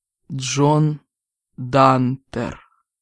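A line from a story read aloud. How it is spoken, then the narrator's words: Slow reverent whisper. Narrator (Russian): медленно и благоговейно прошептал он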